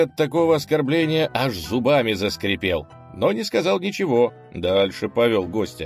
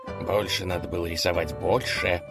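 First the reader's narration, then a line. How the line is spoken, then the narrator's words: Grumbling under breath. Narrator (Russian): проворчал князь себе под нос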